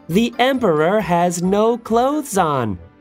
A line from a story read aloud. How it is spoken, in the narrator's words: called out